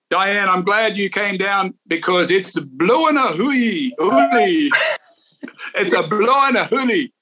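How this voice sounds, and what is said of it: Speaks in a put-on accent. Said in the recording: “I'm going to try to do it with my accent.”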